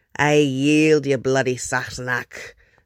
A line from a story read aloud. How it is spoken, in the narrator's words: MacLeod grumbled good-naturedly